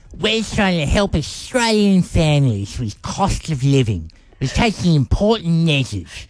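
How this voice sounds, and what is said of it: Exaggerated Albo impression. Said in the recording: “You just wanted to get an Albo impersonation in there, didn't you? ... He doesn't sound like that. ... You've exaggerated slightly.”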